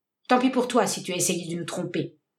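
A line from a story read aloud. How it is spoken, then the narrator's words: Cold. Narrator (French): dit froidement John Jarvis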